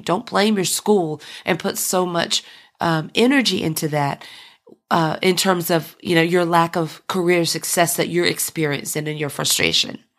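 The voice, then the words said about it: Rough, hoarse voice. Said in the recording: “My voice is a little rough, but I've had two respiratory infections within 30 days”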